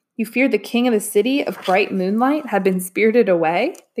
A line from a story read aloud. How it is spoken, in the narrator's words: the king laughed